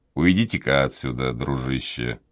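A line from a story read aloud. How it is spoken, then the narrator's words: Quiet. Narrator (Russian): ответил тот тихо сказал ему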